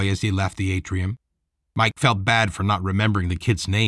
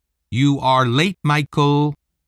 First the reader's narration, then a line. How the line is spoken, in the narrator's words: Gran said loudly